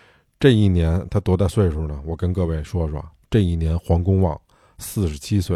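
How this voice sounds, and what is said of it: Usual voice. Nothing is said of it.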